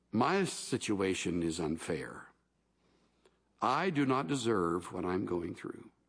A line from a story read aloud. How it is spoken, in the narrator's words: would say with a sigh